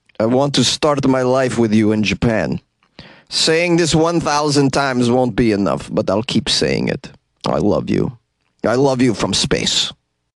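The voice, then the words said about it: Mock Russian astronaut voice. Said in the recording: “let me do a Russian astronaut impression”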